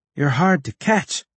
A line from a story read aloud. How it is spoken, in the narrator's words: I said between gasps